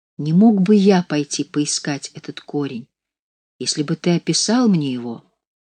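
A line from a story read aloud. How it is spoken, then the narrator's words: Timid question. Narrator (Russian): Кнехт робко спросил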